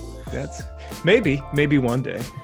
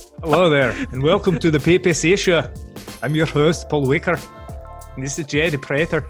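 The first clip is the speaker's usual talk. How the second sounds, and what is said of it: Put-on accent, pretty good. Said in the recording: “That's pretty good, man... introduce yourself in that accent”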